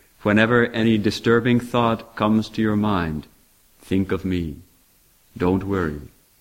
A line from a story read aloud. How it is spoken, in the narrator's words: she said in a firm voice